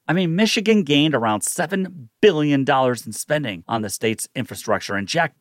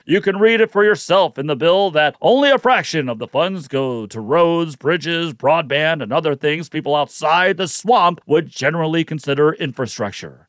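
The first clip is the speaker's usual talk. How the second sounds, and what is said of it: Jack Bergman impression. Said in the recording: “my best Jack Bergman impersonation”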